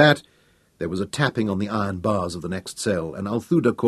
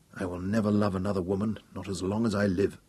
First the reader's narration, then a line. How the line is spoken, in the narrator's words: Hal said bitterly